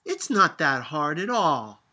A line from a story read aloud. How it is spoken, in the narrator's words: Sophia shouted